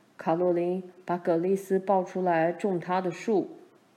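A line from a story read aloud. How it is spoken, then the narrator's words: Calling out. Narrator (Chinese): 他对妈叫道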